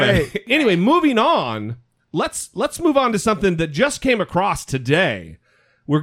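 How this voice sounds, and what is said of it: Usual voice. Nothing is said of it.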